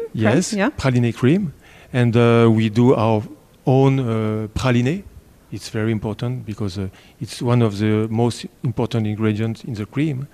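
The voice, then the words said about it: French accent. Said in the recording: “what a lovely accent you have... the French tones”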